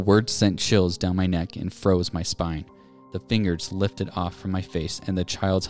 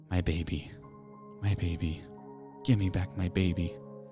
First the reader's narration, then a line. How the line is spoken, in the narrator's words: A woman's voice whispered